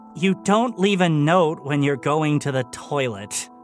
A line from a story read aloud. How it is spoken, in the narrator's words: Philip sighed